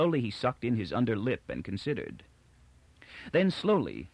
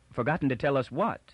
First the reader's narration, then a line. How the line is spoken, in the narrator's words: put in Toran quickly